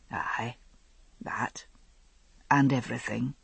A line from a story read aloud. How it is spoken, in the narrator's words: he said softly